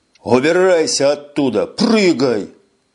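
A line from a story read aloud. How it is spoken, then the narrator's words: Barked. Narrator (Russian): рявкнул Эш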